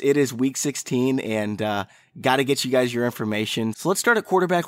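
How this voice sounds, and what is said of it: Voice sounds unwell, not ideal. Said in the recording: “I am under the weather. My voice is not ideal.”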